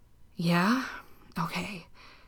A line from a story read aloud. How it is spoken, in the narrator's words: Dean breathed